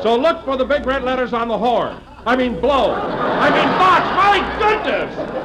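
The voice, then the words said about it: Shouting. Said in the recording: “stop shouting”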